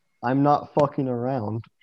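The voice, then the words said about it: Deadpan flat delivery. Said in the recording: “in the most deadpan voice at all”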